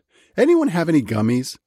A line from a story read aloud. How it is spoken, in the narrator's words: shouted